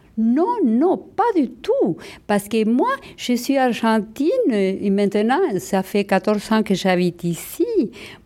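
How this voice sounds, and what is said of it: Argentine accent speaking French. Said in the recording (French): “mon accent argentin, c'est ma fierté”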